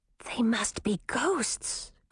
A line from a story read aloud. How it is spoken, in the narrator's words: Grisina whispered in her sister's ear